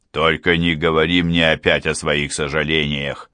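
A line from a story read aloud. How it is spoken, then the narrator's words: Through gritted teeth. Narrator (Russian): процедил Брайан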